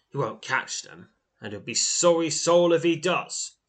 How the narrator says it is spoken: scoffs the lone rider

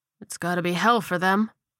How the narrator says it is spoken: Chad murmured

